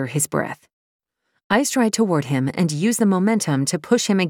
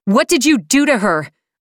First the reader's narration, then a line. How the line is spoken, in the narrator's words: yell